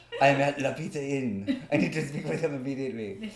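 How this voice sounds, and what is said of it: Bad put-on French accent. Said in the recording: “It was a horrible French accent”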